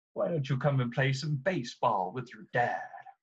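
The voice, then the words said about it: Imitates a character's voice. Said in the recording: “my Cisco impression ... It's very good.”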